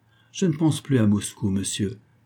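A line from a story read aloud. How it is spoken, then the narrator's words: Grave voice. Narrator (French): dit-il d'une voix grave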